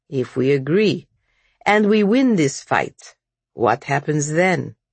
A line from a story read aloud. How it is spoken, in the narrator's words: asked Dmitri